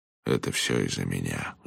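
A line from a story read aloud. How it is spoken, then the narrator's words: Sighing. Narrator (Russian): вздохнул Джонатан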